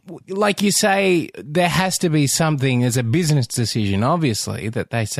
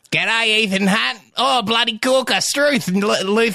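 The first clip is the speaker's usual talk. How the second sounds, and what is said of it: Exaggerated put-on Australian accent. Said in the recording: “He is Australian. ... Does he do a terrible accent? ... That's painful.”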